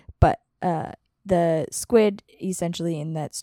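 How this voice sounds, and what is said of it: Usual voice. Nothing is said of it.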